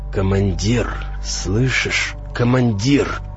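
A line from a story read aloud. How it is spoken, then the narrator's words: Wheezing. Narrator (Russian): просипел я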